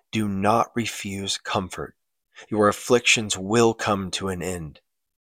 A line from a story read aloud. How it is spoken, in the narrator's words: gently says